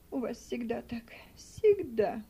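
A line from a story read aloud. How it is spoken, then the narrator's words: Exclaimed. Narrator (Russian): воскликнула Мари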